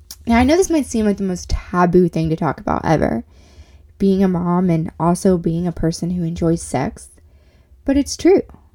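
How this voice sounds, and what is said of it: Nasal, congested voice. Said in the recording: “excuse my voice a little bit. I do have a little bit of a cold, so I'm sounding a little nasally”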